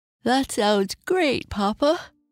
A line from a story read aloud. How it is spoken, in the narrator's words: said with a yawn